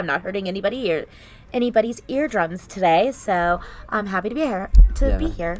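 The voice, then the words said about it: Raspy, lower-pitched voice. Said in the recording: “I'm actually also losing my voice. ... I'm a little bit raspier and lower than I usually am”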